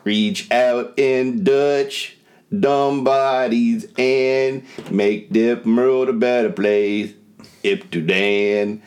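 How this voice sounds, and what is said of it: Sings in an imitated character voice. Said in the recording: “that was my Eddie Murphy impression doing Buckwheat”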